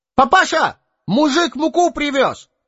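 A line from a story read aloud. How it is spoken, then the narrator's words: Shouted. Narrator (Russian): крикнул Ваня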